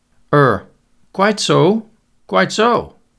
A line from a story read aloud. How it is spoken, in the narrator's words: said nervously